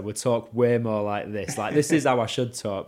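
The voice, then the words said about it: Leeds accent. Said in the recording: “if I spoke like I were from Leeds”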